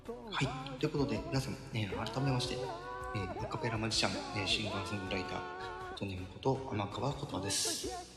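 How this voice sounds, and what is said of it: Speaking in a quiet, soft voice. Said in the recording (Japanese): “昼なのにねちょっと小さめの声でお届けしていきたいと思っております”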